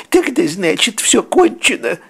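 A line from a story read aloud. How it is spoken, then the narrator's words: Tearful sobbing. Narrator (Russian): всхлипнул Тоут, орошая слезами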